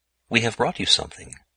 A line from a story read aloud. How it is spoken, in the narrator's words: Luc grew bold and murmured